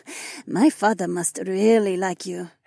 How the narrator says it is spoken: Haewon chuckled

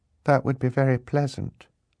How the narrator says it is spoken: Violet said, very sadly

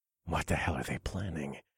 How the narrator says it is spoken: I muttered to myself

